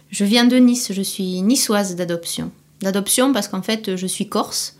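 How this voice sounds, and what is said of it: Southern French Midi accent. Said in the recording (French): “un petit accent ... J'ai l'accent du Midi”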